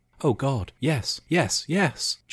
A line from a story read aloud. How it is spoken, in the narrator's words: Jess gasped in delight